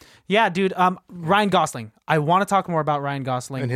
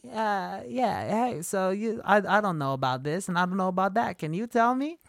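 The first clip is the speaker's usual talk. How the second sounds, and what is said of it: Bad high-pitched imitation of another person. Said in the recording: “his high-pitched voice? ... bad impersonation? ... So bad”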